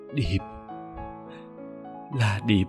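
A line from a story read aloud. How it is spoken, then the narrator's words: Soft voice. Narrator (Vietnamese): Lan khẽ cất tiếng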